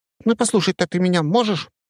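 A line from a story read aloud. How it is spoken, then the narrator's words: Squeaky. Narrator (Russian): пропищал он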